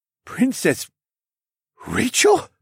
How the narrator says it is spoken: He gasped

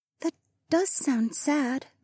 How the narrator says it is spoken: the freckled princess murmured

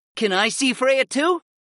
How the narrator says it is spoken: Dio asked excitedly

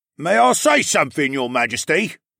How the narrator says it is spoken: Nahuel called out above the noise

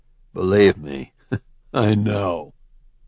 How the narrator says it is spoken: he said with a bitter laugh

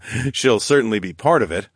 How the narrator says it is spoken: I chuckled

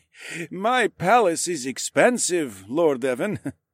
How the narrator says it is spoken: he chuckled

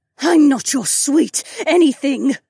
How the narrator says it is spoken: she spat

